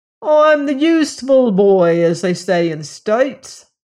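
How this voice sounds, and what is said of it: Strong Cockney accent. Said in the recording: “he said with a strong Cockney accent.”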